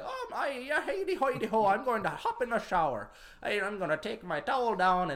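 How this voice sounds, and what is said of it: Put-on Irish leprechaun accent. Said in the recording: “my leprechaun accent”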